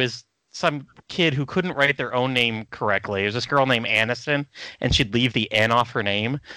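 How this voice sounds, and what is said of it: Usual voice. Nothing is said of it.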